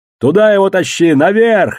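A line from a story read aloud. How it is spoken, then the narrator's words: Yelling. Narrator (Russian): заорал я Мургену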